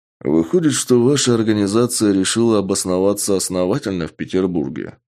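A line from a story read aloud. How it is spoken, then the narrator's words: Plain. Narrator (Russian): спросил я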